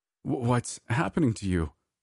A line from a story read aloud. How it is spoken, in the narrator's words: I stammered, unsure of what to do